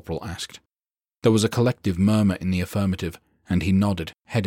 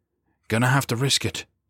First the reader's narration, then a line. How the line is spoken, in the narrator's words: he muttered